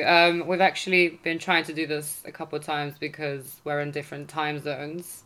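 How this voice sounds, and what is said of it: British accent. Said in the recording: “as you can tell by my accent, I am here in the UK”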